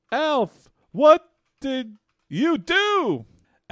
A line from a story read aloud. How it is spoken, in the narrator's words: Lynn screams